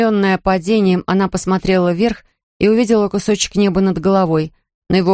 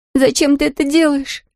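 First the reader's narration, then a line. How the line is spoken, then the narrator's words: Sobbing. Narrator (Russian): всхлипнула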